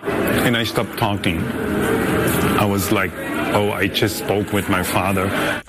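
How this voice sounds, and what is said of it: German accent. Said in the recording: “hey, I hear an accent. Where is your accent for? I said, from Germany.”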